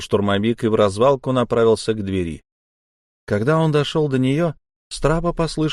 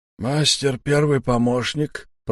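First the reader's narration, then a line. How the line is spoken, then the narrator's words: Hoarse wheeze. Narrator (Russian): просипел Сиплый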